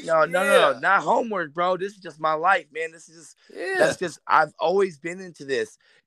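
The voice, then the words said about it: Raspy voice from a cold. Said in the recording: “It's not how I usually sound. I'm getting over a cold... I still have that raspiness... I sound a little bit out of it”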